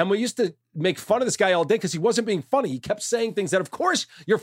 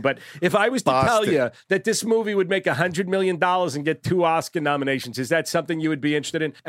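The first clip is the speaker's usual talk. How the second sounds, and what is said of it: Put-on Boston accent. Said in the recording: “with this Boston accent, I don't know if I sound anything like Boston”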